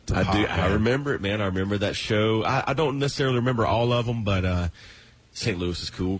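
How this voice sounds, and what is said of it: Southern American accent. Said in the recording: “They're from the South. Maybe Atlanta, something like that. You know, you can hear his Southern accent come through.”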